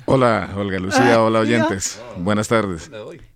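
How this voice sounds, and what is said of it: Deep radio announcer voice. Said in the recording (Spanish): “voz de locutor... esa voz melodiera”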